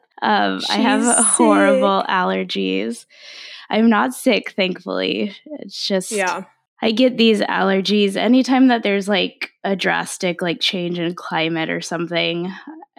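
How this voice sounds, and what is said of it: Congested, stuffed-up voice. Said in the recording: “I sound a little stuffed up.”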